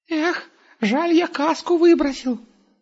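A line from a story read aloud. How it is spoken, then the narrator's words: Sighing. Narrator (Russian): вздохнул Густав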